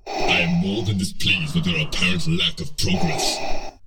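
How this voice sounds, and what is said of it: Deep menacing Darth Vader voice. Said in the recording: “Oh, yeah, that's a heck of a voice ... When Darth Vader is standing behind you”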